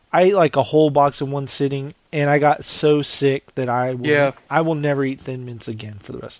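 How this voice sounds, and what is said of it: Hoarse, fading voice. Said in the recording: “That's why you're sick. That's why you're losing your voice.”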